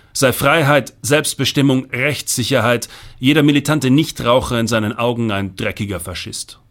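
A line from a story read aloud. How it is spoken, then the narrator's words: Blustering. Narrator (German): polterte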